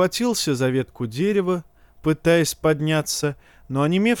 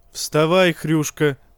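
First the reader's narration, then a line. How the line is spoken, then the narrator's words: Grumbling. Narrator (Russian): проворчал кто-то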